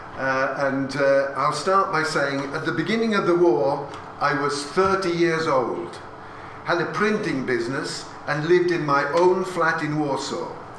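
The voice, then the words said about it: Imitated Polish-accented English. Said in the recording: “I will not speak to you in Polish, but I'll give you my father's accent.”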